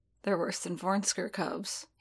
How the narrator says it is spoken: he muttered, voice pitched low for Din's ears

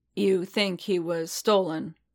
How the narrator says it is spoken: Boba rumbled

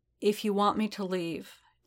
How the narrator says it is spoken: Din said, keeping his voice steady with every scrap of strength and will he'd ever had

